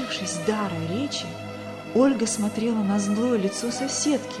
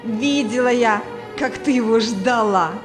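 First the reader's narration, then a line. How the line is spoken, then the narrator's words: Laughing loudly. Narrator (Russian): Расхохоталась Клавдия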